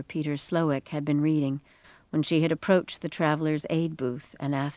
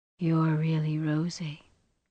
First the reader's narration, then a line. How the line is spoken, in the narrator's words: the tongueless voice of the temple whispered, bleakly amused